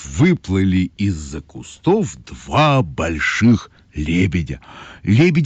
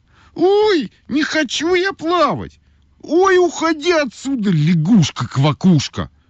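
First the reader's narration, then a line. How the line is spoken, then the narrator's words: Cried out. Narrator (Russian): крикнула Ойка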